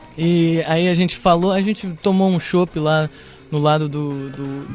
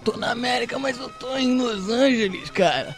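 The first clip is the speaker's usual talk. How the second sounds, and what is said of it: Imitates another person's voice. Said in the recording (Portuguese): “Isso é a imitação dele de mim. ... alguém acha que ele ... fala assim.”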